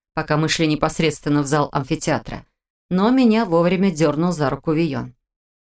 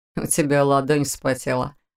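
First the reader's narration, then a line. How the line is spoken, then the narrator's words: Snorting. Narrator (Russian): хмыкнул Вион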